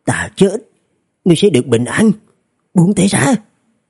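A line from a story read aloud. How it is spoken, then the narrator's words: Angry lowered voice. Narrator (Vietnamese): Phố Lễ Sinh giận dữ hạ giọng nói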